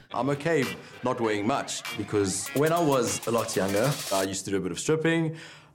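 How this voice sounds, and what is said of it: South African accent, deep male voice. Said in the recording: “Speaking of South Africans that are hot ... He's got that accent. He's got a deep voice”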